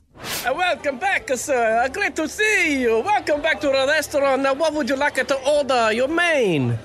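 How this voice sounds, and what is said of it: Put-on Italian accent. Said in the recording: “I went to an Italian restaurant ... I've never seen someone put on an accent of the particular restaurant they're working at. So I've made a little sort of reconstruction of what happened last night. Listen to the guy's accent”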